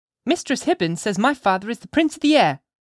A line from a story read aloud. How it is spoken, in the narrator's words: cried Pearl with a naughty smile